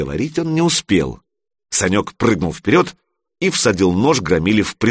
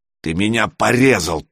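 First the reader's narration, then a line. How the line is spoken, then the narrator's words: Growled. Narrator (Russian): прорычал Миша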